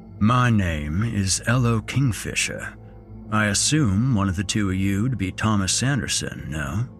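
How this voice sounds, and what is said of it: Low rumbling Southern accent. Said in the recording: “His voice was low and rumbling, fitting for a man of his size. He had a matter-of-fact, magnolia moonlight southern accent.”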